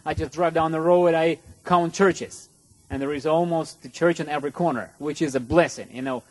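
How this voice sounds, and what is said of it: Non-native English accent. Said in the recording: “you can see by my accent that United States is not my home, and English is not my first language”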